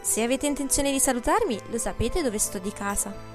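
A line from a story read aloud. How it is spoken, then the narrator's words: Plain reply. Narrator (Italian): rispose Lola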